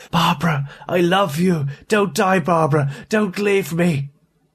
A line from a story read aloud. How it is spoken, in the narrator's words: A sudden, final surge of something akin to hope made him call out raspingly, urgently